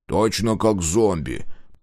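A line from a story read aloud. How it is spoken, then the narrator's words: Grumbled. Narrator (Russian): проворчал Дозер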